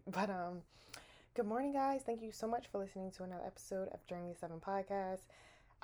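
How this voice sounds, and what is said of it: Slightly raspy voice. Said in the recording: “it is 5:48 in the morning and as y'all, your girl voice a little raspy”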